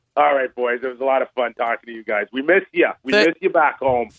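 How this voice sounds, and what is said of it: Canadian accent. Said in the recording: “That Canadian accent was shining through.”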